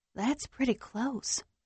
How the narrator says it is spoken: I whisper

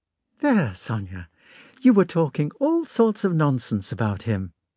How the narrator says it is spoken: began in a mild voice, such as children use when they wish to be praised

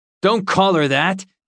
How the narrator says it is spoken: snapped a teenage boy

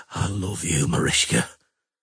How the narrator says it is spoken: he said softly

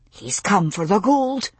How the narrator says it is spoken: she said, lowering her voice

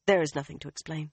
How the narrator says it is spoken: the other woman said flatly

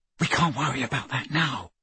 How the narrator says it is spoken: whispered Hermione

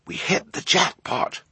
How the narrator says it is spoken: Klaus whispered

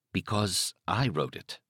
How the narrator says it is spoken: Thad muttered

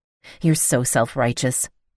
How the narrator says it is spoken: I snarled

